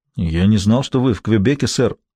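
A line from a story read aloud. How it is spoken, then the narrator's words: Confused. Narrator (Russian): растерянно сказал старший полицейский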